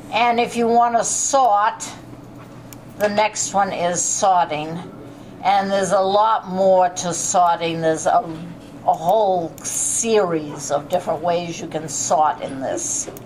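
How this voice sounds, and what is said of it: Non-rhotic accent, R dropped. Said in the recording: “With my accent, the R is missing”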